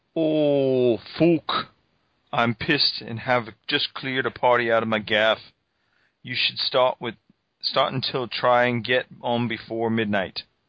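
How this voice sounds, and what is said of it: Deliberately bad put-on accent. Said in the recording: “In my worst possible accent. ... That was a pretty bad accent.”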